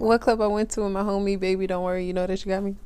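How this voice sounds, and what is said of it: Very fast rapped lyrics. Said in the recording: “You said it so fast.”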